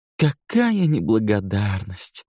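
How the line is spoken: Sighing. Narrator (Russian): вздохнул Эндрю

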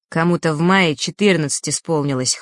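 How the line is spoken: Snort. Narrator (Russian): хмыкнул Феш

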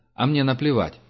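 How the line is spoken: Plain. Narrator (Russian): сказал Герман

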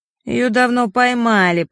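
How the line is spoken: Whiny tearful voice. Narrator (Russian): плаксивым голосом отозвался Мишка

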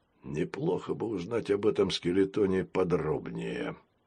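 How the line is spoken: Mumbled. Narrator (Russian): пробормотал пират

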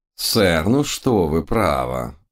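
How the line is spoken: Reproachful drawl. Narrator (Russian): укоризненно протянул мой учитель

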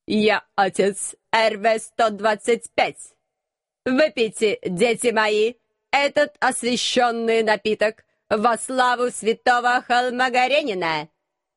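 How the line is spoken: Metallic grating voice. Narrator (Russian): Металлическим голосом проскрежетал настоятель

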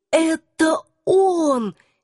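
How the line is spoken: Hoarse whisper, voice failing. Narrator (Russian): сипло прошептала я, голос внезапно пропал

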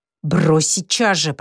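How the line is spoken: Hissing. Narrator (Russian): прошипел спортсмен

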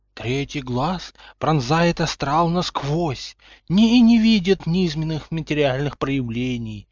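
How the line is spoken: Sepulchral fortune-teller voice. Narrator (Russian): замогильным голосом ответила предсказательница

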